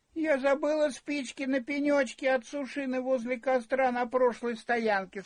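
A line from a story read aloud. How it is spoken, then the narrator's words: Sobbing through tears. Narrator (Russian): сквозь слезы спрохныхала она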